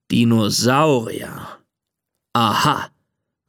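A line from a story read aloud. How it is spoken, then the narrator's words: Father growling. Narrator (German): knurrt Papa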